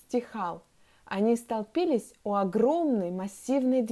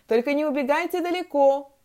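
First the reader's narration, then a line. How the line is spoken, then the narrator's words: Teacher calling after. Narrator (Russian): крикнула вдогонку учительница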